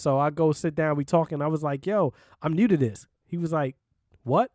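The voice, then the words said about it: New York accent, fast speech. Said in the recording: “I got that New York accent. I'm talking fast.”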